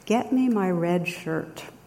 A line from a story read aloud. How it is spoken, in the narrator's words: the captain replies calmly